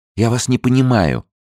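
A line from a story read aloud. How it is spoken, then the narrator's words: Sharp. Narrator (Russian): резко отвечала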